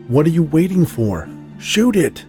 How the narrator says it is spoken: Fear overtook reason, and I shouted

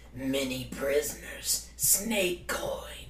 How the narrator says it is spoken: Tingle, in his best goblin voice, says

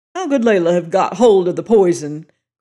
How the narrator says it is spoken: cried O'Malley

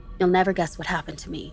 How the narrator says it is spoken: said

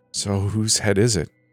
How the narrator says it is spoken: I asked nervously

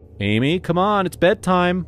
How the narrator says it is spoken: I called out

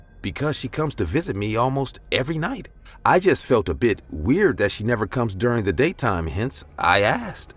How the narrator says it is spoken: I replied in a confused voice

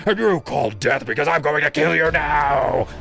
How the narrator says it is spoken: he roared

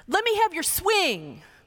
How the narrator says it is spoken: one little boy yells at her

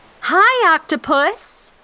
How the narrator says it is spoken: I shouted

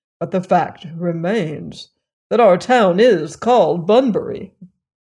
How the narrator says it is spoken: Bun rather stiffly

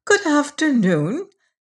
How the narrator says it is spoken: said Miss Pym cheerfully

